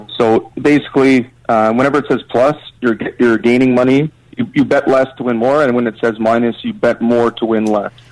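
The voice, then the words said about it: Canadian accent. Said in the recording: “I'm guessing in Canada, based on your accent.”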